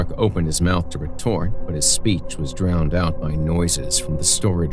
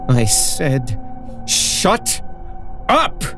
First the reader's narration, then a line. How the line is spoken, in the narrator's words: Cruz roared through tears